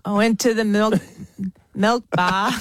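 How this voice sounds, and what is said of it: Poor attempt at Australian accent. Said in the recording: “How is your Aussie accent going? ... Terrible. ... I'm so bad. I use my mouth too much. I use too much of my mouth.”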